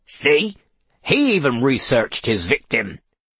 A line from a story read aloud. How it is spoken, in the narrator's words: snapped Kingfisher